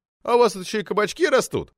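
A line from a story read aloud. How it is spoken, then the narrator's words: Chuckling. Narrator (Russian): хохотнул Крыков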